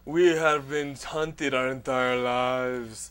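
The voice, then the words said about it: Put-on dramatic vampire accent. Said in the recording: “Why does a vampire have to have a fucking accent?”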